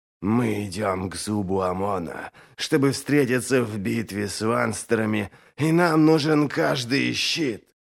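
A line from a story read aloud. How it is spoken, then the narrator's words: Hoarse wheeze after coughing. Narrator (Russian): Он зашелся в кашле и потом прохрипел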